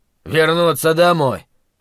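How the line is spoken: Snorting dwarf. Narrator (Russian): фыркнул гном

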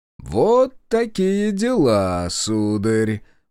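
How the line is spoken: Drawling. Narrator (Russian): протянул он

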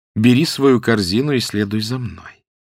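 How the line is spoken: Soft, clear voice. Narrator (Russian): она сказала мягким и ясным голосом

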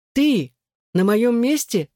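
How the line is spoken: Exclaimed. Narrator (Russian): воскликнул он

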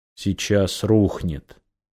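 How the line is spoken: Quiet summary. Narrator (Russian): тихо подытожил дым

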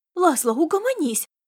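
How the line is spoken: Breathless girl's exclamation. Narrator (Russian): задыхаясь, воскликнула девушка

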